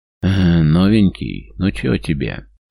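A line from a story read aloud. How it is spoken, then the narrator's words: Mocking drawl, gloating. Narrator (Russian): Насмешливо тянет он, явно наслаждаясь моментом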